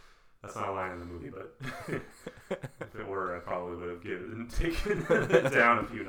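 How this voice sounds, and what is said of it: Usual voice. Nothing is said of it.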